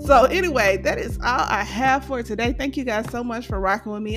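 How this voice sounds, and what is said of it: Strained voice, close to giving out. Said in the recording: “My voice is really trying to give out on me”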